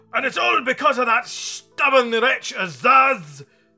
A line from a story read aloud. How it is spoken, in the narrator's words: roared the math magician, completely overwhelming the bug, for now his sadness had changed to fury